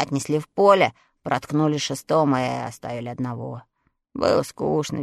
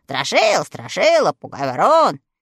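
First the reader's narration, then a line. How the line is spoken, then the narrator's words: Cheerful children's shouting. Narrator (Russian): Дети фермера весело закричали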